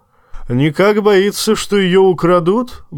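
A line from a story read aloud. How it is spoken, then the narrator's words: Roar. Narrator (Russian): взревел, услышав об этом Тормунд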